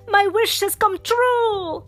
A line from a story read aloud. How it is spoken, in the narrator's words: Geppetto exclaimed